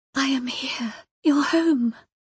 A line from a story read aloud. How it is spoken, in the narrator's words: she whispered